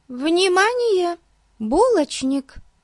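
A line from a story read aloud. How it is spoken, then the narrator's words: Exclamation. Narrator (Russian): воскликнула Бетси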